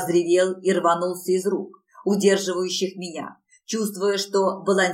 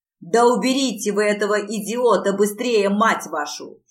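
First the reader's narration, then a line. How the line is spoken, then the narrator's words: Furious growl near ear. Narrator (Russian): Яростно зарычал Локи у самого моего уха, обливаясь потом в попытке скрутить меня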